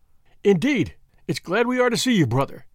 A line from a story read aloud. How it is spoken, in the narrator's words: cried the chairman